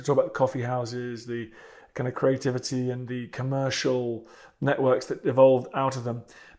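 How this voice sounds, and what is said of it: British accent. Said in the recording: “As Brits, where this podcast is based, as you may be able to guess from my accent”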